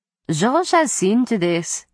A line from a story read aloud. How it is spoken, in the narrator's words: Isabeau said in a bored tone